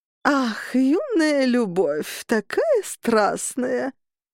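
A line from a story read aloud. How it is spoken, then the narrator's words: Old woman drawling. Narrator (Russian): протянула бабуля Фрида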